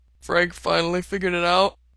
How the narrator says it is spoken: Otter asks around a yawn

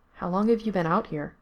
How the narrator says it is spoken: asked quietly

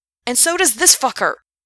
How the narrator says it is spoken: he shouted

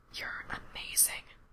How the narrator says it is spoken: Frank whispers

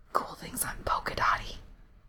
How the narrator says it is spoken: Cherry whispered

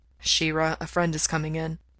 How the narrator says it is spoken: Mikey murmured

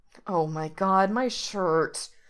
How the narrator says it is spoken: Reese groans

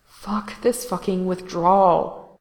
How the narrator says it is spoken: Gerard moaned internally

